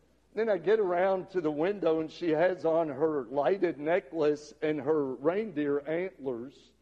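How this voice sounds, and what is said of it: Usual voice. Nothing is said of it.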